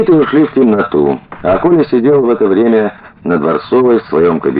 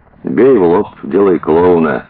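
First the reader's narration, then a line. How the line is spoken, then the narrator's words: Lazy speech. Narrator (Russian): лениво сказал Сеня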